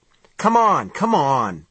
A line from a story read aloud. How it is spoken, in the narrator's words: the man said impatiently